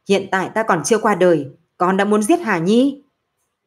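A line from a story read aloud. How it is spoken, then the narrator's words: Loud angry shout. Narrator (Vietnamese): Nam Môn chỉ hiểu quát lớn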